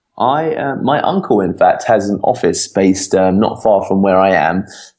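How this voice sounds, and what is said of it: West London English accent. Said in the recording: “I am in a place called Uxbridge, which is the edge of West London, England. I'm guessing you can tell by my accent.”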